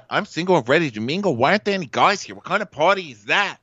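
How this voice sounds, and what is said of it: Imitation of Ramona's accent. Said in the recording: “thinking she's talking like Ramona ... she would just take on Ramona's accent”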